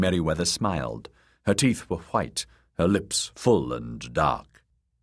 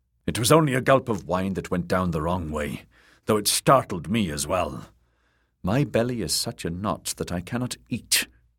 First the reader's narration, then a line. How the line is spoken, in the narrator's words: she growled at him